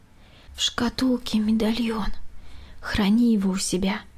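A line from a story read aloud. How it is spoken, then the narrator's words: Quiet. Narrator (Russian): тихо заговорила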